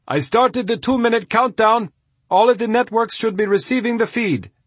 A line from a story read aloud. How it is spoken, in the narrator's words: The man yelled